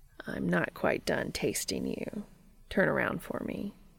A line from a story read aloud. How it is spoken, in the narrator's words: Cass smiles and murmurs